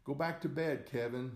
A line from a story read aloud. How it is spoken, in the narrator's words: I shouted